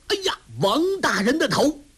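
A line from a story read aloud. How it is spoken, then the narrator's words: Loud shout. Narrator (Chinese): 为首的那个人大声吆喝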